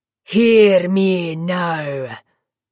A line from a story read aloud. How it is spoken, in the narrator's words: Nikita's bellow rang in the rafters